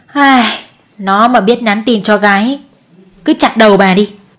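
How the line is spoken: Sighing. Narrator (Vietnamese): Mẹ chú Đại thở dài

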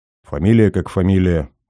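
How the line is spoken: Grumbling. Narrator (Russian): буркнул боец

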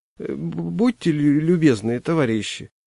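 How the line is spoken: Embarrassed stammering. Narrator (Russian): сказал он, краснея и заикаясь

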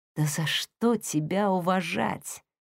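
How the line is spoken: Whisper. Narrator (Russian): прошептала Хейли

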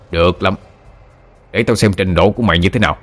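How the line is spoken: Furious man. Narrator (Vietnamese): Người đàn ông trước mặt vô cùng tức giận

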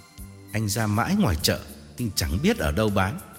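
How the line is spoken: Calm smiling reply. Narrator (Vietnamese): Tôi mỉm cười và thản nhiên đáp

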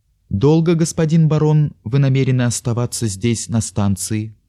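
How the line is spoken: Plain. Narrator (Russian): спросил

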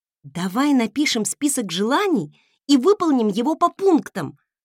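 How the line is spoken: Exclaimed. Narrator (Russian): воскликнула

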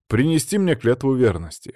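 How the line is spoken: Smirking grunt. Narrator (Russian): хмыкнул

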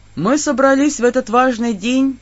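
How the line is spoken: Doleful droning intonation. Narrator (Russian): начал заунывно вещать господин алтар

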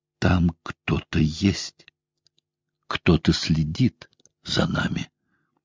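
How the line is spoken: Agitated whisper. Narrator (Russian): проговорила взволнованным шепотом

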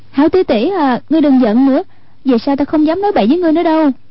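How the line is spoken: Pleading, coaxing. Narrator (Vietnamese): Hoàng Dung nài nỉ

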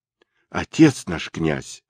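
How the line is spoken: Exclamation in unison. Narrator (Russian): воскликнули они

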